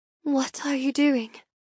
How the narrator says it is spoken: I whisper

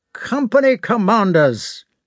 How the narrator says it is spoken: he shouted in a voice accustomed to command

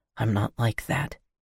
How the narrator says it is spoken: he whispered

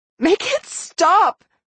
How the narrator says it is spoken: I begged, still crying

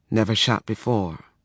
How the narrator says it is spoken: he admitted, dropping his voice to a mumble

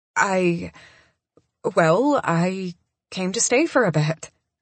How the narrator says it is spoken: I stammer, because I get a little sidetracked by those blue eyes

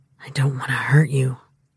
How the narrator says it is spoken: he whispered

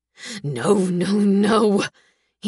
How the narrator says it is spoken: gasps

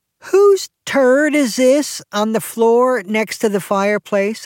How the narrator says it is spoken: I called out

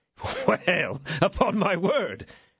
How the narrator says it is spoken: said the young man, laughing

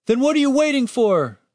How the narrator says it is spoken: shouted the wounded guard

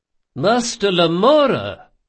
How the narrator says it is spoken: cried Ibelius

